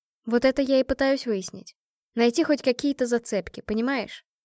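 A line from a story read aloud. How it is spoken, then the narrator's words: Sighing, reluctant. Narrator (Russian): вздохнула я, немного подумав, нехотя сказала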